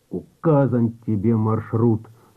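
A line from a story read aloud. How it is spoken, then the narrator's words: Dull, lifeless voice. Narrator (Russian): сказал Донской потухшим голосом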